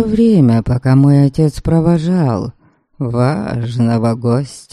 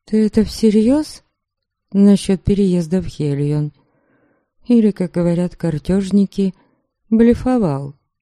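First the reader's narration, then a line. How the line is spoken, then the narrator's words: Quiet hesitant question. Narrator (Russian): я осмелилась негромко спросить у Дориана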